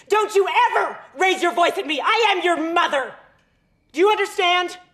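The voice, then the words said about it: Angry yelling. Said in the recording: “she's like yelling all these horrific things”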